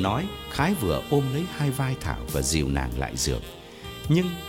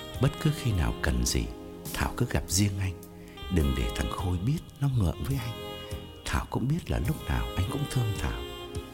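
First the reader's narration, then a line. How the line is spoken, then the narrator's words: Intimate whisper. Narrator (Vietnamese): thì thầm bên tai Thảo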